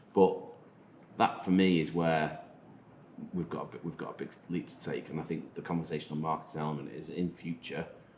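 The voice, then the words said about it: Manx accent. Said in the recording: “my Manx accent”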